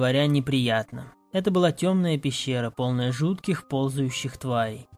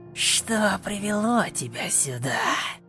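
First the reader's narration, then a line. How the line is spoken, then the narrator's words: Hissing. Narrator (Russian): Зашипела она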